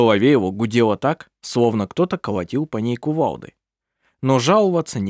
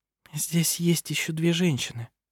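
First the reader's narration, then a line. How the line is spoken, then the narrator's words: Quiet. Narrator (Russian): тихо сказала она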